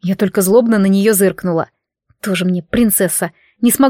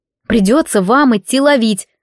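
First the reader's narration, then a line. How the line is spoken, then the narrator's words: Snort. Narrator (Russian): хмыкнула я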